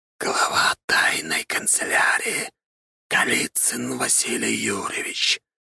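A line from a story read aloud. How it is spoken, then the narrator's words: Hiss. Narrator (Russian): прошипела голова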